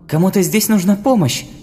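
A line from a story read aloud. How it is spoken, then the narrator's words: Exclamation. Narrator (Russian): воскликнула Галя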